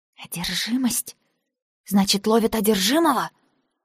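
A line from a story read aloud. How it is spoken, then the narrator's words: Hiss through teeth. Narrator (Russian): Я шипела сквозь зубы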